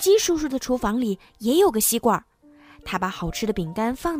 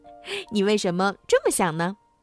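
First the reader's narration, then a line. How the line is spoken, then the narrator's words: Laughing. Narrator (Chinese): 兄妹俩笑着说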